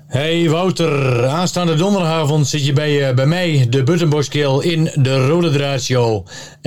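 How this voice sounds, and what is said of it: Twente regional Dutch accent. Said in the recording (Dutch): “je kan wel mooi praten hè, in een mooie Twentse accent”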